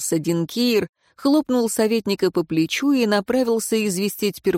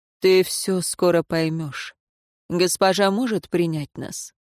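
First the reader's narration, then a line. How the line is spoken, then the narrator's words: Tired sigh. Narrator (Russian): советник, устало вздохнув, произнес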